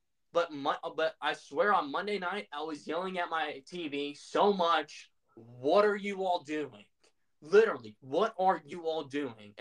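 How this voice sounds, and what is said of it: Agitated, ramped-up angry speech. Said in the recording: “I don't know if you can tell by my voice and me getting ramped up”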